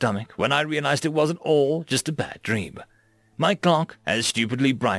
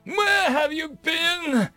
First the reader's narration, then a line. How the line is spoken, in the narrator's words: wailed